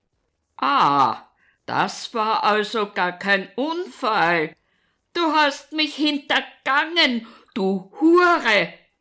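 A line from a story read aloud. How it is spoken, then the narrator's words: Furious bellowing. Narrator (German): brüllt er weiter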